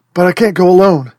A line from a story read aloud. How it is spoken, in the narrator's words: he says, his voice shaking